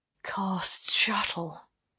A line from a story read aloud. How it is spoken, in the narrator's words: Lane breathed